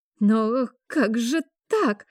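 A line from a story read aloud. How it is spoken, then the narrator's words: Bewildered old woman babbling. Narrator (Russian): пролепетала старушка, искренне недоумевая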